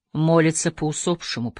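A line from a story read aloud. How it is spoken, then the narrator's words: Dejected mutter. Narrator (Russian): пробормотал, уронив голову на грудь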